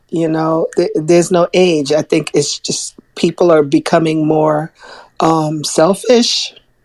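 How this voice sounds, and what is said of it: Hoarse, fading voice. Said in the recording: “I don't know where my voice went ... You burned it out today ... That sounds like an allergy voice”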